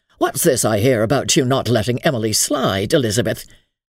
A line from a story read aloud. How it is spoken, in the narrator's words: Burnley said gruffly